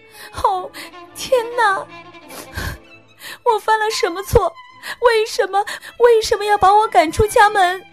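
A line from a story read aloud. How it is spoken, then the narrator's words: Sobbing loudly. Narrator (Chinese): 她一想起父王把她赶出国家时，都会大哭道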